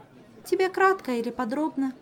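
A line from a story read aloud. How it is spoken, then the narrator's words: Weary sigh. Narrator (Russian): снова вздохнула Ольга, которая уже 40 раз пересказывала эту историю и успела приобрести к ней чуть ли не аллергию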